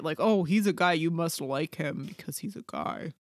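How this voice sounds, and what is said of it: Imitates another person's voice. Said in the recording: “that's a great impression ... very good at it ... I could get a job on SNL with that impression”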